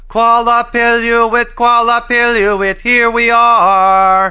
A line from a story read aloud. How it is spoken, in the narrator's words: the children yelled as loud as they could